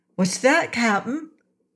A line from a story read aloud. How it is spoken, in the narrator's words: Trot suddenly exclaimed